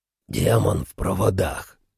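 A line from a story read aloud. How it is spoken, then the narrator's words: Hoarse. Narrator (Russian): хрипло произнес он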